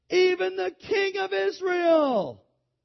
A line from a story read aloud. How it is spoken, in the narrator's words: the people were shouting